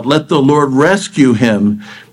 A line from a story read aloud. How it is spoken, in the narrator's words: one of them cried out, several of them cried out